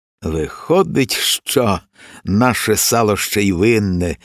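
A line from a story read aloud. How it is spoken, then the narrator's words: Sighing raven. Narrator (Ukrainian): зітхнув ворон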